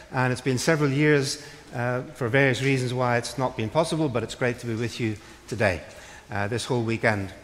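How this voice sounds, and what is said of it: Northern Irish accent. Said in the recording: “the accent that you're hearing now doesn't come from these parts. I actually was born and brought up in Northern Ireland. My home city is Belfast”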